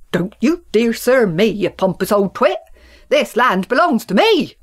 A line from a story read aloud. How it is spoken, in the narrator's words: bellowed Farmer Country